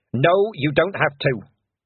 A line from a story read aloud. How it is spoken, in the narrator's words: snapped Mistress Weatherwax